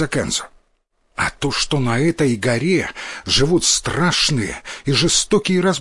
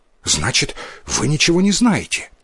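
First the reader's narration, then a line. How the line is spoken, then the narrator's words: Hurried boy's question. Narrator (Russian): торопливо спросил мальчик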